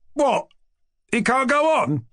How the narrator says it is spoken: cried the young man

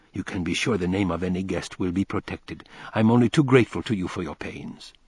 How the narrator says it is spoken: whisper to Dick

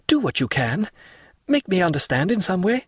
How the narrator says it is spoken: cried he

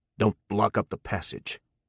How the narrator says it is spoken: he growled

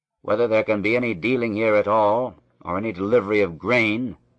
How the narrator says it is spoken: said crossly

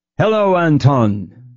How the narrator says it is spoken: Berg would roar

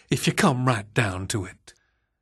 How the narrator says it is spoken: the proprietor said in a placative tone

